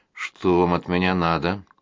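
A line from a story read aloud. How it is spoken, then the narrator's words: Mumbling. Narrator (Russian): пробормотал я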